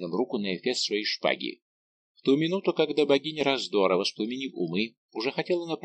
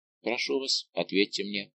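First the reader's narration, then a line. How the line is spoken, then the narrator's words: Calm insistence. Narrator (Russian): спокойно настаивал Рауль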